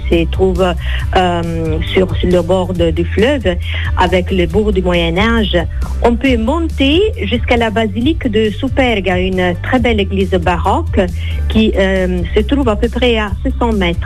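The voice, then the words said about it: Italian accent speaking French. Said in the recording (French): “avec cet accent, vous nous donnez envie de voyager et de, retrouver le, soleil d'Italie”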